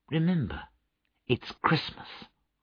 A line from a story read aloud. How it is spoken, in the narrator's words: said Bob gently